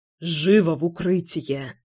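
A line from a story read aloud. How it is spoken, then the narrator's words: Urgent whisper. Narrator (Russian): прошептал Славик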